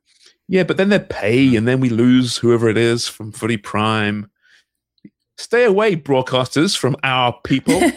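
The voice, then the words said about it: Non-Canadian English accent. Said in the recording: “criticizing the English, the accents ... This anti-accent thing ... I sound a bit different, so I'm not Canadian”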